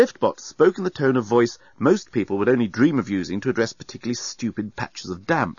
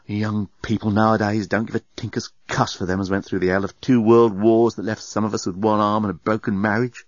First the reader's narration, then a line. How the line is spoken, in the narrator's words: The liftbot fetched up a groan from deep within and muttered to itself